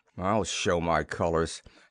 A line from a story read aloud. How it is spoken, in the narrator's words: muttered, a grim smile